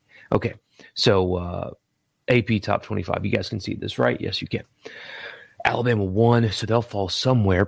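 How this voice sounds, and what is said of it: Quiet monotone delivery. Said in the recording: “Forgive me being a little monotone. I just can't wake the baby.”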